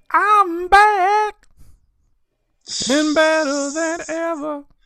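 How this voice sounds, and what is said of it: Sung in falsetto. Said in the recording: “The golden vocals. I didn't know you had that falsetto”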